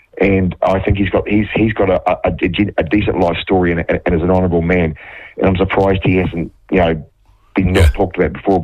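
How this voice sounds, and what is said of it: Strained, hoarse voice. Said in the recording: “I'll lose my voice today, bit of a cold”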